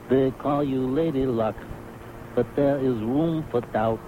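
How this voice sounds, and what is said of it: Marlon Brando impression. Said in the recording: “my impersonation of Marlon Brando in Guys and Dolls as Guy Masterson”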